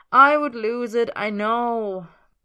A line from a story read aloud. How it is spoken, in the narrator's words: Merlin sighs